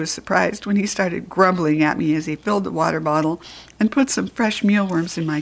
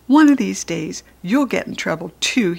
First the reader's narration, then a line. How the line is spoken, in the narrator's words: he said